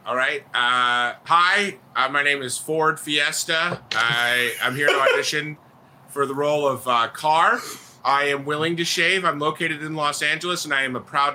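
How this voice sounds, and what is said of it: Playing a car at an audition. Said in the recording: “your best impression of a car auditioning for a Fast and the Furious movie”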